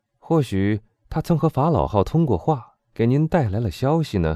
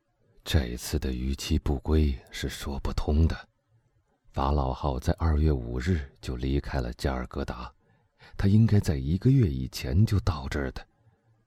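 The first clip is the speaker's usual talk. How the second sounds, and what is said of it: Low, deep voice. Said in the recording (Chinese): “莫里尔又用一种低沉的声音说”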